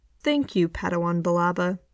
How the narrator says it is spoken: Ben says dryly

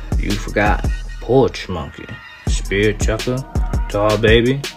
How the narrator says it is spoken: Bradley chuckled

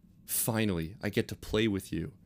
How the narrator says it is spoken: he muttered

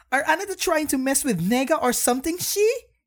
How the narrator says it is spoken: She snapped at him

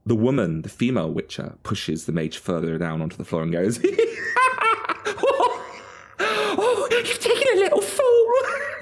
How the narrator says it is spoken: She laughs and she cackles

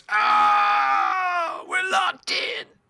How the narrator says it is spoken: He screams

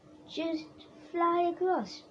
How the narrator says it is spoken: Benny shouted

